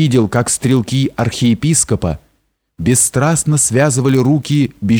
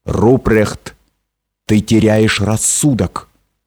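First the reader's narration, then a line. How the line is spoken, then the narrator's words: Stern. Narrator (Russian): граф Адальберт, который сказал мне строго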